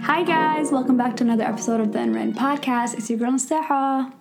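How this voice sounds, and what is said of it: Slightly raspy voice. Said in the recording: “I still sound raspy, kind of a little”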